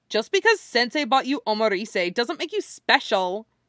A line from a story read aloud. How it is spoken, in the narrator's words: snaps